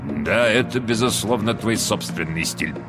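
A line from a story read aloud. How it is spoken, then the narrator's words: Mutter. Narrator (Russian): пробормотал сэр Вальтер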